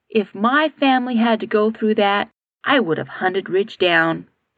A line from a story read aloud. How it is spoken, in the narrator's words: Katie said in a quiet, angry voice